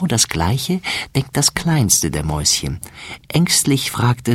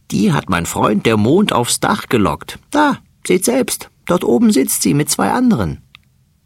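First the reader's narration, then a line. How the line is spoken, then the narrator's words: Laughing fat male mouse. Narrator (German): lacht der dicke Mäuserich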